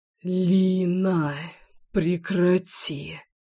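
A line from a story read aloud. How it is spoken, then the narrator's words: Curt hoarse wheeze, man. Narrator (Russian): отрывисто просипел мужчина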